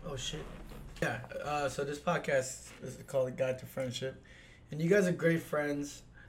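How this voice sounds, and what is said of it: Hoarse, strained voice. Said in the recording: “Forgive me, my voice. I'm kind of losing my voice right now.”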